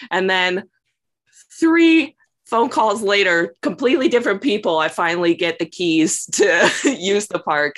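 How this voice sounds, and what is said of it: Southern American accent. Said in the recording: “my southern charm and my accent”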